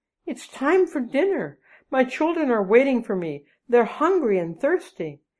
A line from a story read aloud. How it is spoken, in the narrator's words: she cried